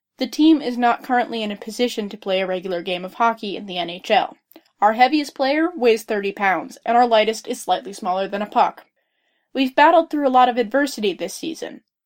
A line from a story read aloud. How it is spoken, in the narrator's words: Johnston said flatly